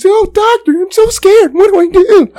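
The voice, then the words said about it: Imitates a scared character's voice. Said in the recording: “A really good impression.”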